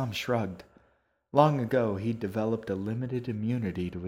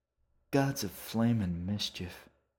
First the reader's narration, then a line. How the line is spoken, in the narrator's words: muttered Jerry's leftmost head